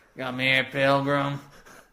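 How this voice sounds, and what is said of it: Poor imitation of a movie cowboy. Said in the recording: “terrible John Wayne impression”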